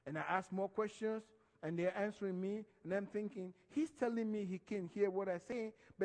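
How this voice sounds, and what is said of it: Speaks English with an accent. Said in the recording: “You have an accent. ... I'll keep on with my accent.”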